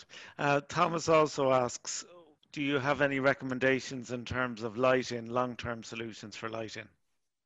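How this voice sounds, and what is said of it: Irish accent. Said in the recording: “Sorry, my ... Irish Sorry. accent.”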